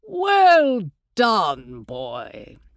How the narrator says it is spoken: Herr Heyerdahl's voice boomed

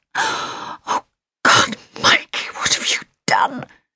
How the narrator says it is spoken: She whispered

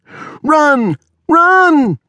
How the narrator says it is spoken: shouted the woman at the rear

